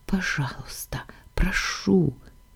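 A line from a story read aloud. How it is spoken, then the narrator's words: Whisper. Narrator (Russian): Прошептала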